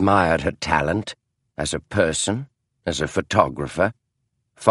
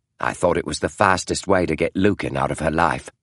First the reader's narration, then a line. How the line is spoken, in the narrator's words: she said bitterly